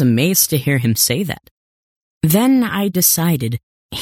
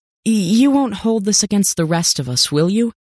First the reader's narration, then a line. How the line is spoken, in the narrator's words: I asked nervously